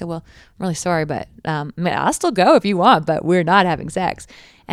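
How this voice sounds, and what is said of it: Usual voice. Nothing is said of it.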